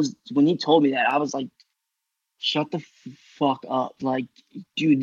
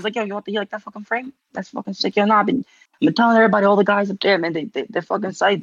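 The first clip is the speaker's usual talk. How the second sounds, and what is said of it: Put-on Staten Island accent. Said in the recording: “I don't know why I'm giving him such a Staten Island accent, but fucking, we're running with it”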